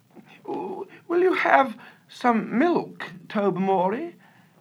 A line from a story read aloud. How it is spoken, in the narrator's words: asked Lady Blemley in a rather strained voice